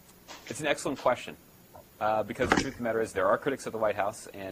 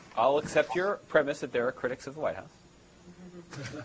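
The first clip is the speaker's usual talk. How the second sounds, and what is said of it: Sarcastic, dry delivery. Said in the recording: “I'm just being sarcastic”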